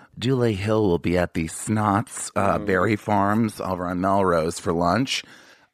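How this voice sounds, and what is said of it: Put-on voice imitating Dulé Hill. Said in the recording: “I didn't know I sounded like that, but yes. ... you put on a voice.”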